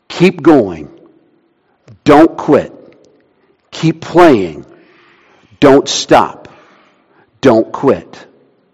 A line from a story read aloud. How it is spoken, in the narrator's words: the composer kept whispering in the boy's ear